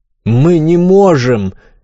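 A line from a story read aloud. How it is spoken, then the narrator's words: Shout from crowd. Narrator (Russian): крикнул кто-то из толпы пассажиров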